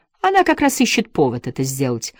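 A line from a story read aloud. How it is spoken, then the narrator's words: Exclamation. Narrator (Russian): воскликнул Гладштейн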